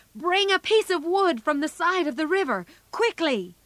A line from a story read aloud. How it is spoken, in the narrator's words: Laurie ... shouted